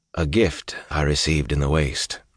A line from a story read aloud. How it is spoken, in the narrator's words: Rand said